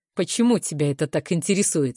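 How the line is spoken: Mocking question. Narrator (Russian): спрашивает насмешливо

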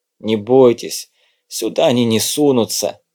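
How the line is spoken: Wounded man's wheeze. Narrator (Russian): просипел раненый

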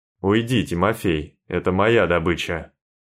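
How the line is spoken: Menacing rumble. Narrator (Russian): грозно пророкотал Максим

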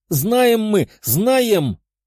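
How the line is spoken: Hoarse wheeze. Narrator (Russian): прохрипела полуорчиха

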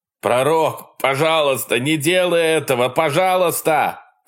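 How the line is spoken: Shouting. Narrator (Russian): кричал Брэнсон

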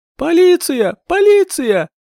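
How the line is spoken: Hysterical woman's scream. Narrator (Russian): истошно завопила незнакомая женщина

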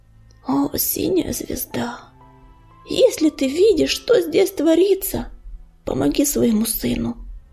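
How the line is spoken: Pleading prayer. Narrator (Russian): взмолился Огнезвезд

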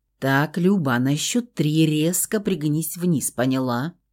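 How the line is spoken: Calm undertone. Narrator (Russian): Полголоса и очень спокойно попросил Феникс

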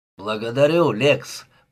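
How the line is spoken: Hoarse rasp. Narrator (Russian): прохрипел Брей

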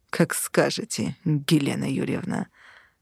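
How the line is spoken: Through gritted teeth. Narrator (Russian): процедил ЛСД

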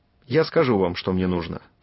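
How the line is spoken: Plain. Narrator (Russian): сказал я

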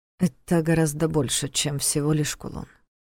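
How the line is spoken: Quiet remark. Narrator (Russian): тихо заметил Войтых

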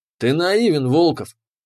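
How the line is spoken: Scoffing snort. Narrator (Russian): хмыкнул он

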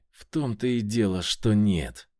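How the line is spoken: Hissed. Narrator (Russian): прошипел Крылов

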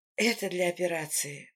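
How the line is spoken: Muttering. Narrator (Russian): Бормочу я

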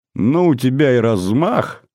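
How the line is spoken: Laughing father. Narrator (Russian): рассмеялся папа

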